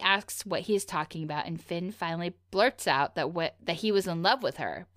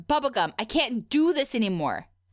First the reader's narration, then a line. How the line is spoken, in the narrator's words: clearly enraged, stands up and he shouts